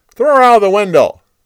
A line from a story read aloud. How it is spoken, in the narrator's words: Jehu yelled